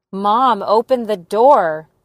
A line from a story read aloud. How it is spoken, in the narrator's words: I yelled